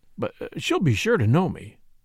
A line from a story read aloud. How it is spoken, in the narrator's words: said the surveyor timidly